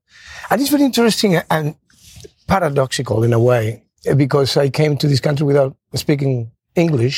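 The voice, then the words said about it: Spanish-accented English. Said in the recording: “I still have an accent many, many years after.”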